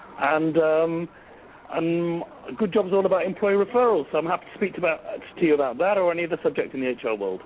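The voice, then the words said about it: English Manchester accent. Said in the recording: “I'm originally from Manchester in England... my English accent”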